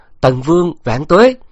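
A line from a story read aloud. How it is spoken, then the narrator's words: Crowd cheering together. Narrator (Vietnamese): Chúng quân trong bảo và tiểu lâu cùng cất tiếng reo hò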